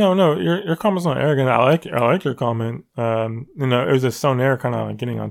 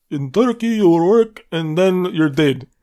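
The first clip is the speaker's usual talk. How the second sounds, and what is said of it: Put-on foreign accent. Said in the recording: “Is that accent really necessary?”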